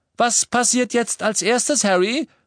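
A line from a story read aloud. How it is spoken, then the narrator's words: Calling out. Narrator (German): rief George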